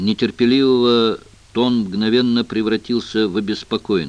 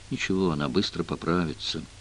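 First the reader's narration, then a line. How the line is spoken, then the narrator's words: Absent-minded explanation. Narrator (Russian): рассеянно объяснил Джефф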